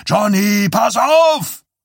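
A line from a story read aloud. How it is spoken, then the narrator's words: Shout. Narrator (German): schrie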